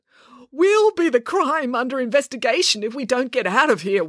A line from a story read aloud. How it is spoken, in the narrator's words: wailed Dad